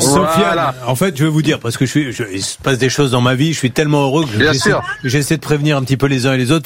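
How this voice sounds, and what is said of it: Usual voice. Nothing is said of it.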